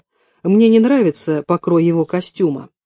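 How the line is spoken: Gloomy reply. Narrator (Russian): мрачно ответил Денис

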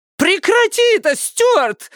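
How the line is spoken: Shrieking. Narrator (Russian): завизжала Лукреция

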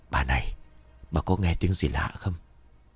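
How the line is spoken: Whispered question. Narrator (Vietnamese): tiếng giọng của ông Năm thì thầm hỏi

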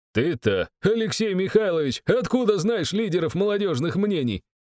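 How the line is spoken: Chuckling. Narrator (Russian): хохотнул Герман

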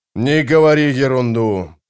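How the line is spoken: Grumbling mutter. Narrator (Russian): пробурчал барон

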